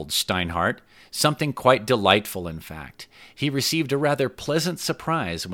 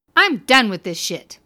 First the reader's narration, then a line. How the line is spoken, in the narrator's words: she exclaimed proudly